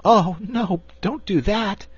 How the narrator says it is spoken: pleaded Cake

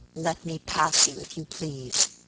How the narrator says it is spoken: he said in an icy voice

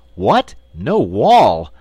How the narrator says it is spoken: exclaimed the wizard

